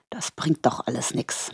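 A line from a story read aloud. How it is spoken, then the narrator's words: Murmuring. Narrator (German): murmelte er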